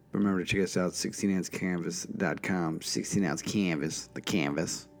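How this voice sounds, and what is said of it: Polished radio announcer voice. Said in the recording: “I know you do love my radio voice”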